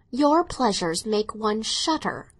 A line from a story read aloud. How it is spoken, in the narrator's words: his sister exclaimed